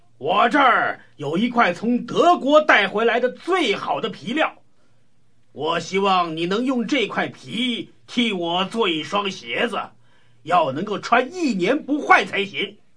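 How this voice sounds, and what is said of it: Booming thunderous loud voice. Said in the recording (Chinese): “发出像打雷一般的声音说”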